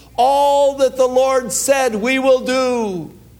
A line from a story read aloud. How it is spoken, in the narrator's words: they cried unto Moses